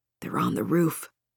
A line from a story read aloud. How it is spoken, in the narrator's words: Marcus muttered, barely audible over the noise